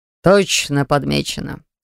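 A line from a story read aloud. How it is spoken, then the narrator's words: Amused snort. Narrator (Russian): Хмыкнул Риводавир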